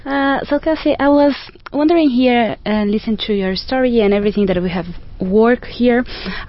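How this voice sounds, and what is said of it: Speaks with an accent. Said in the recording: “I was a little bit afraid of talking because of my accent”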